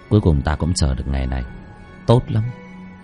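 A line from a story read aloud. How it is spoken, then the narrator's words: Soft laugh. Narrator (Vietnamese): Bác Cổ khẽ cười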